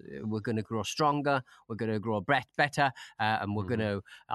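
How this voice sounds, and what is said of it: Mock politician speech style. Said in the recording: “I'm trying to talk like a politician.”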